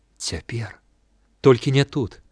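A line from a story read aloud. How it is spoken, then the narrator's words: Whispered reply. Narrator (Belarusian): адказала яна таксама шэптам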